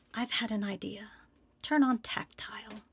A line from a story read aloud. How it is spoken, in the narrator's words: whispered